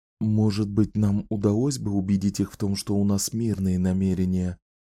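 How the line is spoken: Whisper. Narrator (Russian): прошептала Энн за спиной Зеда

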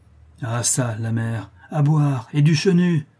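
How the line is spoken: Bandit exclaiming. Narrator (French): s'écria le bandit

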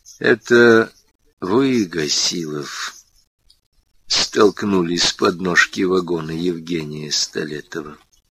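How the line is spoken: Slow. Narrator (Russian): Медленно произнес капитан Прохоров

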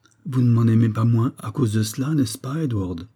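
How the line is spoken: Timid question. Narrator (French): demanda-t-elle timidement

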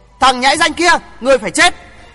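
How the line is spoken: Shout. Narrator (Vietnamese): Thiên Tề giáo chủ quát lên

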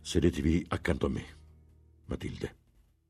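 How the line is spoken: Firm but not stern. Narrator (Italian): disse con tono fermo che badò a non improntare di severità

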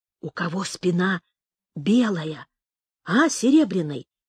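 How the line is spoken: Whispered. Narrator (Russian): прошептал Шишак

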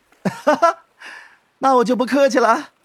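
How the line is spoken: Cheerful giggling. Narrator (Chinese): 白若瑶笑嘻嘻地说

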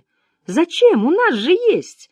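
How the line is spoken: Exclaiming in unison. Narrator (Russian): хором воскликнули обе миссис

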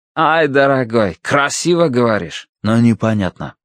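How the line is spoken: Plain. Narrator (Russian): сказал Кинтель

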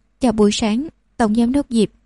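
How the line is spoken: Very clear voice. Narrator (Vietnamese): Cô ấy nói bằng giọng nói rất rõ ràng

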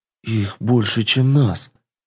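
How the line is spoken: Elf's whispered mutter. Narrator (Russian): шепотом пробормотал эльф

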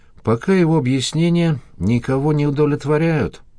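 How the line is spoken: Husband's sigh. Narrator (Russian): вздохнул супруг

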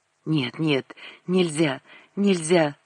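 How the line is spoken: Whispering. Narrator (Russian): шептал он

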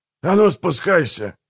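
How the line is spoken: Barked. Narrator (Russian): рявкнул он

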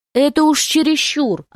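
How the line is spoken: Yelling. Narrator (Russian): орал

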